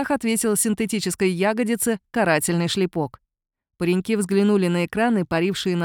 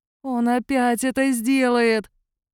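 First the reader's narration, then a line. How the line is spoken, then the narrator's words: Groaning. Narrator (Russian): простонал Мишка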